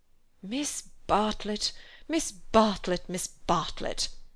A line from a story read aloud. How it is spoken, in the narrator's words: moaned Cecil